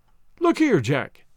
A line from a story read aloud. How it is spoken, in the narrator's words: he cried